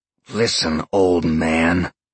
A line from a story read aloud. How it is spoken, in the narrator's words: Sean growled